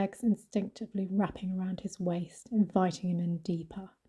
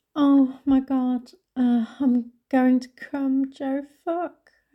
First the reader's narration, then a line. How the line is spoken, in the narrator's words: cried out